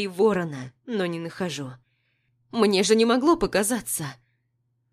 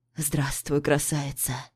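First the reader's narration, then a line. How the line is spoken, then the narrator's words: Hoarse whisper. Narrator (Russian): Хрипло шепчет Павел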